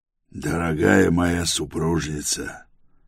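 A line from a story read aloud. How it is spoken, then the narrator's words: Affectionate purr. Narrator (Russian): Промурлыкал он ласково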